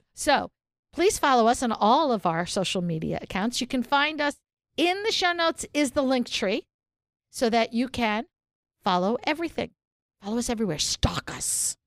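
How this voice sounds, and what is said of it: Announcer voice. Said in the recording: “do the announcer voice”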